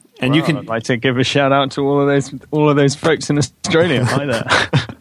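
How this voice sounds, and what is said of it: Noticeably thicker accent. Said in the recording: “your accent got a little thicker when you said that”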